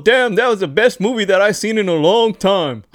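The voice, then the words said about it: Imitates an older man's voice. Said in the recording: “my bad impression ... that was spot on”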